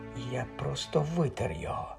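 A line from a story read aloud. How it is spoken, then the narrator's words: Whispering. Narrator (Ukrainian): прошепотів він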